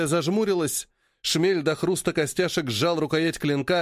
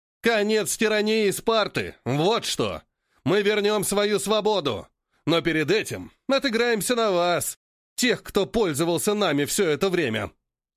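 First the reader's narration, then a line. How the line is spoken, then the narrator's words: Roaring red-haired man. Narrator (Russian): проревел рыжий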